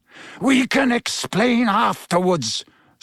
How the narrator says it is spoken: snarled Black

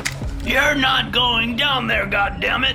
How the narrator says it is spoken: he shouted

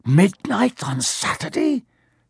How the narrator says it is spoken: He said in a hoarse voice

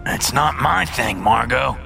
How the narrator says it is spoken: Gideon grunts

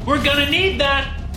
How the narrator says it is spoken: Max yelled

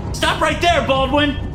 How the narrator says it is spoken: Lohan shouts at me

